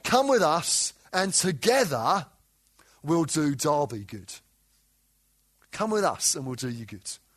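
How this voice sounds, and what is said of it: Southeast London English accent. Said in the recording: “you may have guessed from my accent, I didn't grow up in Derby. I grew up in southeast London”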